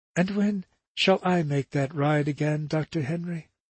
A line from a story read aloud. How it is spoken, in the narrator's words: she murmured to the doctor